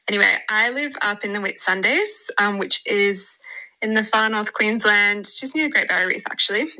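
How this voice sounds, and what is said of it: Australian accent. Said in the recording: “I'm from Australia, if you can't already tell by my accent.”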